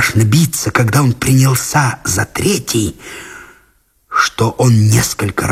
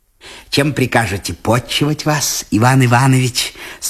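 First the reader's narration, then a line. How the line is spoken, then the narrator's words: Plain. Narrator (Russian): спросил он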